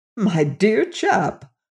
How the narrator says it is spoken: cried the colonel

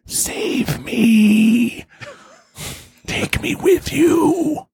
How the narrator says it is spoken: the North Koreans whisper in the air

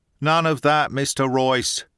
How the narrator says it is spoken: Gilda had called out authoritatively

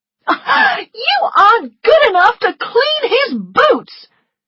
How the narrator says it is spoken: she shouted

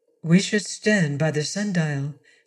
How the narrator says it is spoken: she murmured

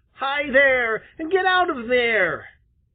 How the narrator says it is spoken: he heard a shrill, angry voice shout

